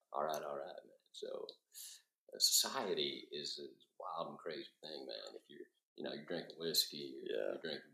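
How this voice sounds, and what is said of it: Matthew McConaughey impression. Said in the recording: “do a McConaughey impression... Can we hear the impression?... I want to hear the impression.”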